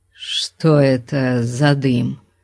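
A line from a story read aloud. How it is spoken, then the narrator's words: Uncertain question. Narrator (Russian): неуверенно спросил Конан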